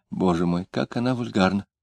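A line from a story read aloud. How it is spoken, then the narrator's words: Gleeful whisper. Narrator (Russian): Варвара тотчас же не без радости прошептала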